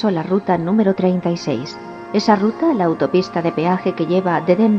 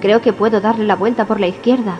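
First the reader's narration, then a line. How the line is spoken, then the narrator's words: Shouting back. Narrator (Spanish): gritó a su vez Halloran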